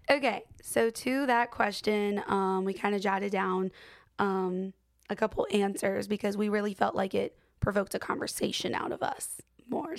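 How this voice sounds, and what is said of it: Hoarse voice. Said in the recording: “It is still hoarse... still bad. So I just sound whack”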